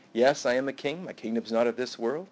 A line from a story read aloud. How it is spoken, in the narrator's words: He's just quietly saying